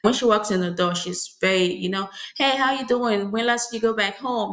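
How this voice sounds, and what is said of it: Nigerian accent. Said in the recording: “oh, I hear an accent ... I'm Nigerian ... there's a distinction of my accent here”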